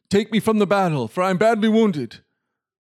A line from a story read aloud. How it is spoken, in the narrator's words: cried out